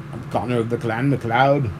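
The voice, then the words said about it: Attempted Connor McLeod voice. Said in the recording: “Connor McLeod's ... I can't even do that voice.”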